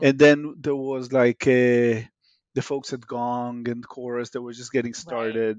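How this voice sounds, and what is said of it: Israeli accent. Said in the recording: “As you can hear in my accent, I'm Israeli by origin.”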